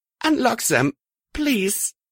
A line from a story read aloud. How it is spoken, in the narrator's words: saying in a shaky voice